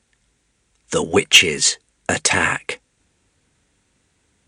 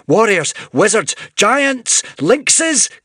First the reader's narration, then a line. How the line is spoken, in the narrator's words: cried Sycorax